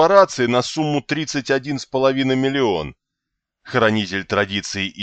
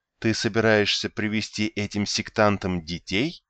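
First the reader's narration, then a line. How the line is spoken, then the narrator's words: Surprised whisper. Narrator (Russian): удивленно прошептала Каслия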